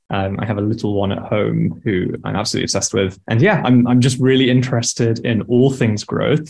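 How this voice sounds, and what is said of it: British accent. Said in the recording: “I am born and raised in the UK, hence my accent.”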